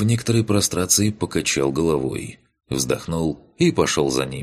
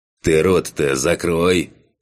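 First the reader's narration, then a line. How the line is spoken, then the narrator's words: Snorting smirk. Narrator (Russian): хмыкнул Кан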